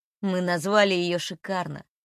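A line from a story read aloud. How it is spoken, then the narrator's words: Strange chuckle. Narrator (Russian): странно хохотнув, выдает Кирилл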